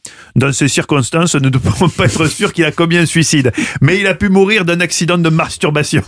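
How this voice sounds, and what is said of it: Put-on southern French accent. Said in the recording (French): “je fais toujours l'accent du sud”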